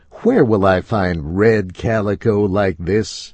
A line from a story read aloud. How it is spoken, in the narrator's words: I asked